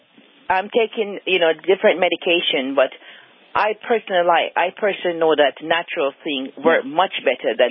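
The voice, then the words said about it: Slight Jamaican accent. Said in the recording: “you have a little bit of a Jamaica accent there”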